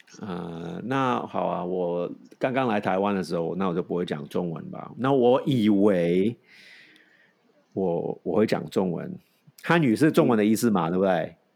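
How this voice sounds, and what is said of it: Non-native accent in Mandarin. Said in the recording (Chinese): “我现在讲什么语言都有口音啊 ... 我讲国语也有也有口音”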